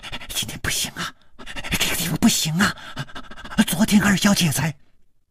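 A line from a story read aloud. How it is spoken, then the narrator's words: Abruptly cut off. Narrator (Chinese): 他的嘴还没有说完，就好像被什么东西给堵住了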